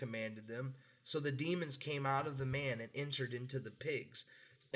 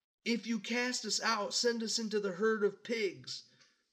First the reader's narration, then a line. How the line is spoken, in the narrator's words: the demons begged